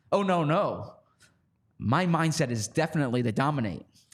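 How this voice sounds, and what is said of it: Imitates another person's voice. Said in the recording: “what a good Julio Jones impression that is”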